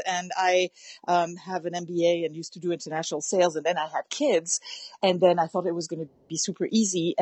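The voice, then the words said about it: French accent. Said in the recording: “I am French ... you'll probably hear an accent.”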